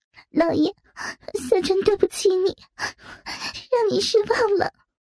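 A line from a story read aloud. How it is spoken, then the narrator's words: Crying. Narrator (Chinese): 小蝉 对着淫魔哭泣道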